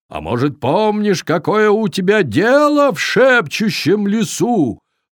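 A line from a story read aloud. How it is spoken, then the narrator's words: Shouting. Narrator (Russian): прокричал викинг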